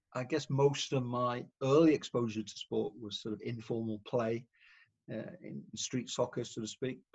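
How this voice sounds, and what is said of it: British Welsh accent. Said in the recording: “brought up in the UK, as you can tell by the accent... North Wales”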